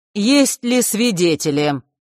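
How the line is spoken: Loud question. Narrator (Russian): громко вопросил советник

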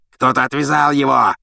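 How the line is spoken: Executioner growling. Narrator (Russian): рычал палач

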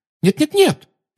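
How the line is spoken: Hasty exclamation. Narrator (Russian): поспешно воскликнула Гермиона

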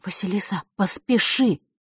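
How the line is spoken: Sudden whisper in ear. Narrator (Russian): вдруг шепнула ей на ухо Диана

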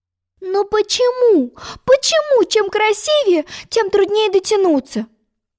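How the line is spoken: Vexed, frustrated exclamation. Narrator (Russian): С досадой воскликнула Алиса, отчаявшись сорвать все-все речные лилии

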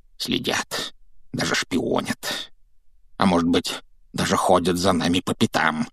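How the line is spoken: Unhinged mumbling. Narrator (Russian): пробормотал дядя Вернон, который, кажется, был на грани помешательства

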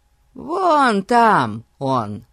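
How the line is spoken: Cheerful. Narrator (Russian): Весело взглянув на Гуна, он сказал

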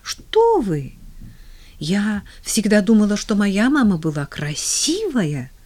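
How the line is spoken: Surprised exclamation. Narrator (Russian): С нескрываемым удивлением воскликнула Поллианна

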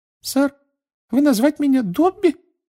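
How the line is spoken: Curious muffled squeak. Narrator (Russian): с любопытством пискнул эльф между пальцев

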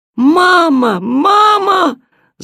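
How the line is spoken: Children shouting together. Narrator (Russian): закричали дети одновременно

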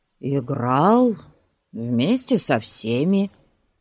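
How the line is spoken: Reluctantly forced out. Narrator (Russian): выдавил он в конце концов

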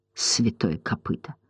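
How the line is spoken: Mutter. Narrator (Russian): пробормотал

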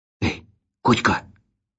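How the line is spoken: Whispered. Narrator (Russian): зашептал Якоб

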